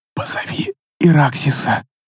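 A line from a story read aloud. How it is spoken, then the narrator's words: Barely audible whisper. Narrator (Russian): Едва слышно прошептала она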